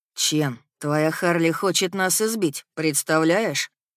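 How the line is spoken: Dejected speech. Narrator (Russian): уныло произносит Дюк

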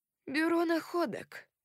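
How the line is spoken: Lifeless voice. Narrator (Russian): сказал он своим безжизненным голосом

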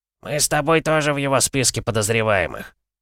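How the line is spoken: Creaky laughing voice. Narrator (Russian): проскрипел своим смехом Дэвид

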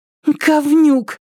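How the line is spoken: Breathless exhaled curse. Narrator (Russian): выдохнула Триша

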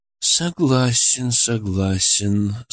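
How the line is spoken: Thoughtful drawl. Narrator (Russian): задумчиво протянул Раскатов

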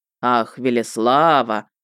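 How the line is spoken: Ominous drawl. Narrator (Russian): нехорошим тоном протянул он

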